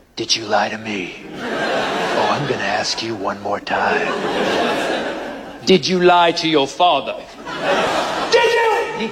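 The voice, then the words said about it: Deep, menacing stern-parent voice. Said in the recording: “you need to develop a second voice. I call it the "you're dead" voice ... My voice is a combination of Barry White, Clint Eastwood, and Darth Vader”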